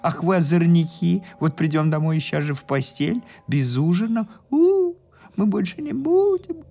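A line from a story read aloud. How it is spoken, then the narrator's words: Whining. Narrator (Russian): хныкали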